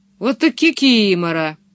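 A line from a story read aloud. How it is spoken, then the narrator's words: Laughing hard. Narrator (Russian): Его прямо скрючило от смеха, он хохотал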